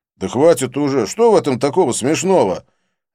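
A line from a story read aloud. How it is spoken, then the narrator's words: Pleading wails. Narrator (Russian): завопили, умоляя меня не продолжать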